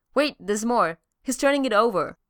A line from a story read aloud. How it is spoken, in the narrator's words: Darcy says, punching Jane excitedly in the arm